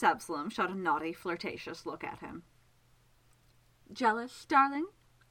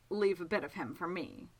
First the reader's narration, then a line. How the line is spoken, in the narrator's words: Childemas commented dryly